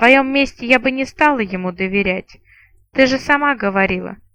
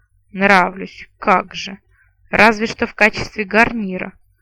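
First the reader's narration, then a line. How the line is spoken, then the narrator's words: Grumbling. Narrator (Russian): проворчала наемница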